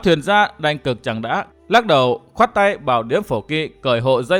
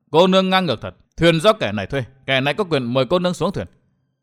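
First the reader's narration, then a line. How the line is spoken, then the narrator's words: Angry young man. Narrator (Vietnamese): Thiếu niên áo bạc tức giận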